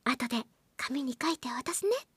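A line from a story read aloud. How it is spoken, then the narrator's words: Whispering in ear. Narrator (Japanese): と耳元でささやく感じで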